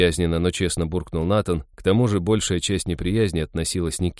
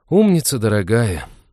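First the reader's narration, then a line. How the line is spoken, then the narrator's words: Heavy sigh. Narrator (Russian): тяжко вздохнул Натан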